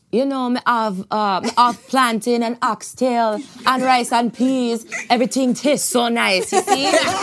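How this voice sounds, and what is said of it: Put-on Jamaican accent. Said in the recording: “that ... Jamaica Instagram account? Can we hear the accent, please?”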